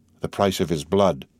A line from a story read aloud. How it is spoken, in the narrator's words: she murmured